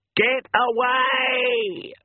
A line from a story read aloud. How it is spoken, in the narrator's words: she screamed